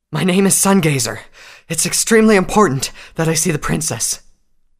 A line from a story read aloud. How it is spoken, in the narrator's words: the unicorn cried out